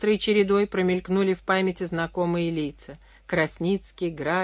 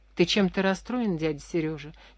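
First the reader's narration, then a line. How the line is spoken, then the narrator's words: Quiet question. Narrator (Russian): тихо спросил Дима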